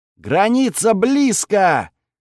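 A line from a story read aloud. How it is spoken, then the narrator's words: Joyful yell. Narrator (Russian): радостно заорал напарник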